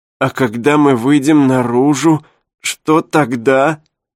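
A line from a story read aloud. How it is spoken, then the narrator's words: Whining. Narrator (Russian): заскулил Дэвид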